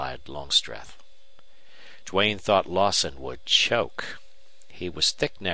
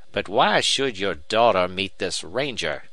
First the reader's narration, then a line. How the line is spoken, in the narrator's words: demanded Lawson harshly